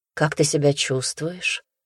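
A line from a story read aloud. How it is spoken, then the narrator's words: Plain. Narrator (Russian): наконец спросил он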